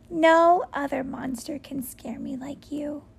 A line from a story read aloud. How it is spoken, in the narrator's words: I giggled